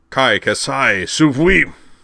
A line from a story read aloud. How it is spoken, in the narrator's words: boomed in an almost tectonic voice